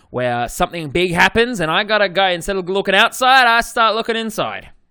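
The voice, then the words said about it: Australian accent. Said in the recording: “With my bloody Australian accent.”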